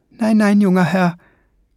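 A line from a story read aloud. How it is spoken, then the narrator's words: Called over shoulder. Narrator (German): rief über die Schulter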